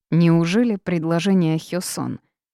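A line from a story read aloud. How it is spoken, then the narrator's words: Rude, beer-tinged question. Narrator (Russian): Вопрос прозвучал довольно грубо, списал это на крепкое пиво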